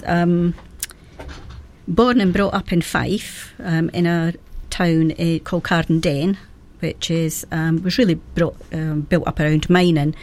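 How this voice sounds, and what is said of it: Scottish accent. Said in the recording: “I'm originally from Scotland, as you know, have guessed by the accent.”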